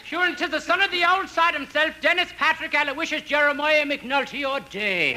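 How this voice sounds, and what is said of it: Put-on Irish brogue. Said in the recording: “Aren't you a little early with your brogue? ... I'll have to talk like this all day tomorrow.”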